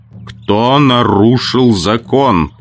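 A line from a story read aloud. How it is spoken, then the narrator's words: Thunderous voice. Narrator (Russian): повторил Мора громовым голосом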